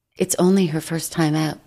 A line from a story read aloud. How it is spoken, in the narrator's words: I said